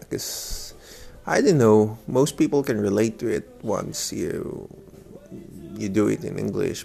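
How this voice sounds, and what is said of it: Thick Bisaya accent in English. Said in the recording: “I have this thick accent of Bisaya”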